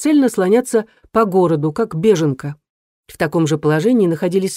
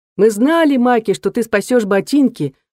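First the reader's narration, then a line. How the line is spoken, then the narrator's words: Group shouting together. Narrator (Russian): прокричали все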